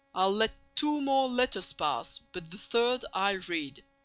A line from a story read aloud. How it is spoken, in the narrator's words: said the prince sternly